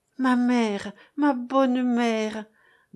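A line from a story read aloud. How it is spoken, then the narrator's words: Comforting stammer. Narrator (French): balbutiait Gracienne en s'efforçant de la rassurer, de la consoler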